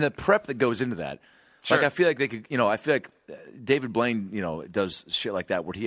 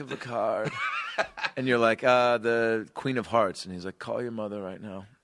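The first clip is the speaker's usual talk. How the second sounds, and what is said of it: Imitates another person's voice. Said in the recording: “your David Blaine impression”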